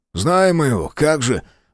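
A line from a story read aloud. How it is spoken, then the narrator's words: Gruff mutter. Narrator (Russian): буркнул Тейт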